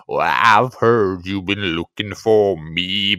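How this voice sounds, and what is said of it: Sings in a low baritone. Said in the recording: “You've got a nice wee baritone going on there”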